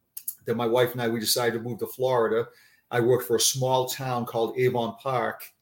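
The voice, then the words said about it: Boston accent. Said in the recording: “This is my Boston accent coming out”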